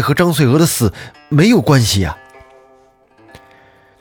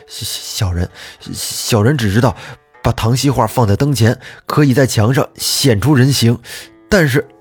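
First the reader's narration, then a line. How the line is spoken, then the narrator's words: Stunned stammering. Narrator (Chinese): 李修听完愣了一下，结结巴巴地说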